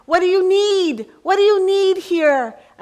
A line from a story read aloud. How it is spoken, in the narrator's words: I shouted out to the women one more time